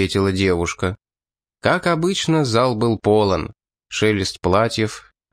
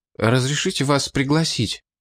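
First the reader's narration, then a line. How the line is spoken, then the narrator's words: Young man babbling shyly. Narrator (Russian): пролепетал юноша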